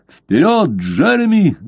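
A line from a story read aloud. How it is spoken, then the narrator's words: Shouting. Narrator (Russian): закричал Блад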